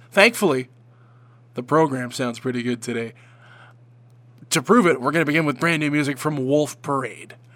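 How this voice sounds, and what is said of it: Congested, sick-sounding voice. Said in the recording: “please do not adjust your radio sets. I'm supposed to sound this way ... I have a cold ... I apologize in advance for the way my voice sounds.”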